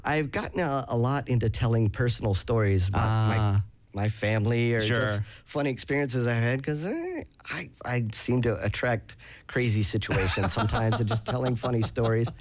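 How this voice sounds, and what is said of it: Southern American accent. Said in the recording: “this is the accent, being from the South”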